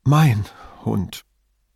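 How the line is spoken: Trembling voice. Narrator (German): mit zitternder Stimme

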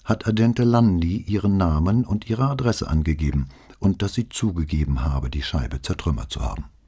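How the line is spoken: Calm. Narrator (German): begann Brunetti noch immer ganz ruhig

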